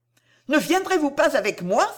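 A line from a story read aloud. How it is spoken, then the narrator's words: Exclaimed. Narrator (French): s'écria Madame Harel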